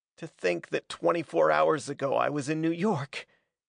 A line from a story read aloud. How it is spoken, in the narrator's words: he half laughed, half sobbed